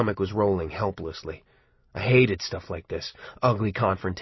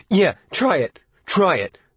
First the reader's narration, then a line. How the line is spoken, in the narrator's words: Buddy shouted at him